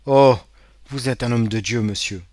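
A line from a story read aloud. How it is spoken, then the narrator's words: Exclaiming. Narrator (French): s'écria Caderousse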